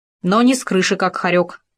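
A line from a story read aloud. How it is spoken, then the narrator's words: Animal's grumble. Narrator (Russian): пробурчал хорек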